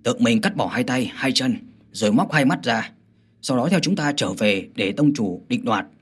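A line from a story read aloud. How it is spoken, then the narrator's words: Cold mocking smile. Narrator (Vietnamese): Chu Cương cười nhạt nói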